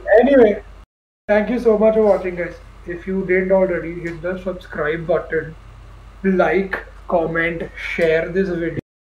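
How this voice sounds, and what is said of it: Indian accent. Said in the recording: “My Indian came out, sorry.”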